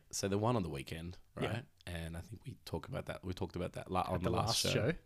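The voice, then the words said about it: Unusually deep, radio-host voice. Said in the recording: “Sounding very radio hosty today though. Your voice, yeah. You got this mad deep voice ... a bit of a Barry White thing going on”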